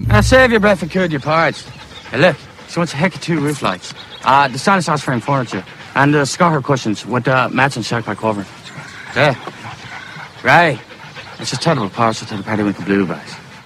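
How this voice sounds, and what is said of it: Put-on Irish accent. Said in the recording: “Is that supposed to be an Irish accent? ... Oh, it is Irish. ... It's really fucking Irish.”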